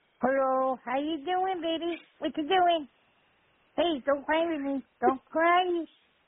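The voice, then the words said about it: Baby-talk voice. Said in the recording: “Do the voice you do when you talk to babies, when you go up to babies in strollers. Do the voice”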